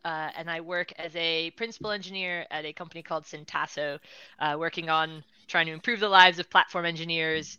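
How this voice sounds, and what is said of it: East Coast American accent. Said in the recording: “my East Coast America accent”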